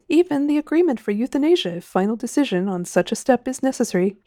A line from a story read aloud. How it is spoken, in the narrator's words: he chuckled